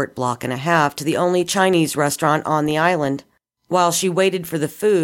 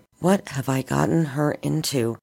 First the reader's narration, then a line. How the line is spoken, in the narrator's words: Eve murmured under her breath